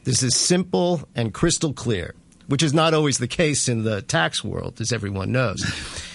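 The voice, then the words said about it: American accent. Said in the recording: “You're talking with an American accent”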